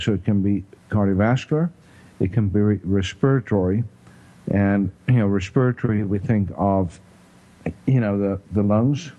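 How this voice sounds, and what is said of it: South African accent. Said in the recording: “I just love the accent, the respiratory ... my South African accent”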